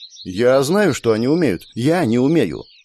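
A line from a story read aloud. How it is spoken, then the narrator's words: Sharp objection. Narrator (Russian): резко возразила Лукреция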